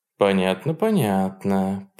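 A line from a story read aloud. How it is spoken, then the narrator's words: Smiling purr. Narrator (Russian): промурлыкал Сен-Жуст с улыбкой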